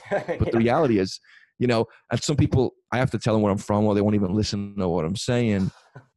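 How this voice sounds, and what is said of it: Mixed Liverpool and American accent. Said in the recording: “my accent's crazy. You know, Liverpool and America just sounds like I'm speaking in tongues”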